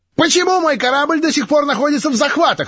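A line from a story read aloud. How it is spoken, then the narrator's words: Shrill shout. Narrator (Russian): визгливо закричал знакомый голос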